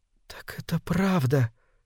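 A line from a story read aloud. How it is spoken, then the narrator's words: Whispered. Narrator (Russian): прошептала она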